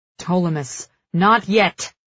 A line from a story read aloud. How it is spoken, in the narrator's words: Cal growls